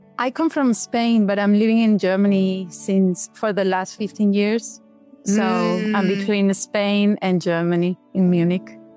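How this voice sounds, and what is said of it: Speaks with a foreign accent. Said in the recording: “especially with the accent. I just love it.”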